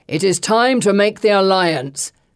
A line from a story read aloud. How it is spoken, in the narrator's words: Christus thunders